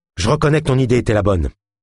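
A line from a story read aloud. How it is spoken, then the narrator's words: Shaky trembling voice. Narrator (French): déclara Geoff d'une voix entrecoupée par les tremblements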